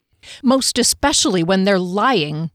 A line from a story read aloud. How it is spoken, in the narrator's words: Kier snapped